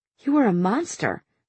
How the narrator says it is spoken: she whispered

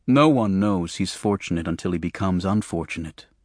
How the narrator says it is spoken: my father said quietly

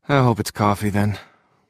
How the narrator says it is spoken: Simon said with a wistful sigh of his own

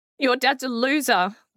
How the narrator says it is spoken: they kept shouting

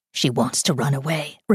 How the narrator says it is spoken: Rebecca whispered

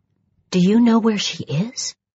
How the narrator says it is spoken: I breathed

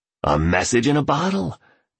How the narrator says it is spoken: declared the billionaire happily

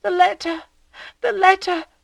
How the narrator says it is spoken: Emma, awaking, cried out

